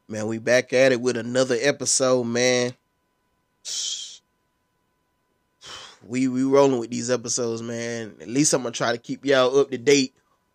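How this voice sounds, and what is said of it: Congested, stuffy voice. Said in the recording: “You can kind of hear it in my voice. ... this change of weather ain't helping for nothing ... so I can breathe a little bit. Stop being so congested.”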